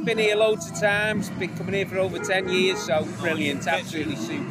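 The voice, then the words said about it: Liverpool accent. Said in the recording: “if your accent didn't give it away ... Just outside Liverpool”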